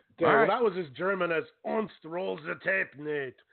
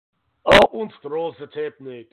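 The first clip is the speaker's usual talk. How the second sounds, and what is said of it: Mock German accent. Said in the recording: “Do you speak German? ... It really wasn't German ... You sound like Frau off of Austin Powers.”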